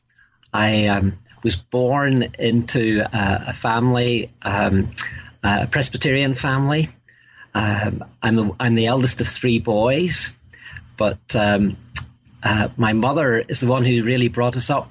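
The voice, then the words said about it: Northern Irish accent. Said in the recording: “you'll probably gather from my accent, in the north of Ireland”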